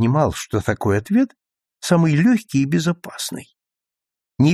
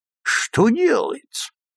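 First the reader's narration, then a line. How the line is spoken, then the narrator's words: Mock-despairing exclamation. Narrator (Russian): в притворном отчаянии воскликнул Хегленд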